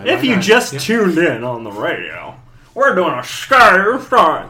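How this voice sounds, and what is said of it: Radio announcer voice. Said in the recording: “That's my radio voice.”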